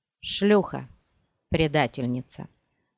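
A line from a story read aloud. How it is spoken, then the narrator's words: Flat, even voice. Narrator (Russian): ровным голосом произнесла Муахим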